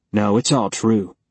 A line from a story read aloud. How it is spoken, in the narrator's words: he said